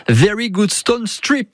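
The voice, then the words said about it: Put-on English accent. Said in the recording (French): “j'ai pris quelques cours d'accent anglais”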